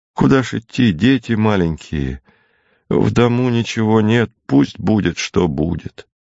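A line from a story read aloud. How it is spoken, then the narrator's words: Sighing reply. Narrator (Russian): Зося вздохнула и ответила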